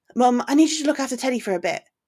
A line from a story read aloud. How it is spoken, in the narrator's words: she said quickly